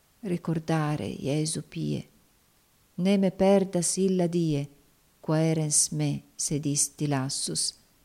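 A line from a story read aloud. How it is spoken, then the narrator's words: Soft murmur to oneself. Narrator (Italian): Clair ogni tanto mormorava dolcemente a se stesso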